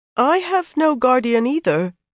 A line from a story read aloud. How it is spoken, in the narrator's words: Branlett said uncertainly, his voice nearly as high-pitched as Catalin's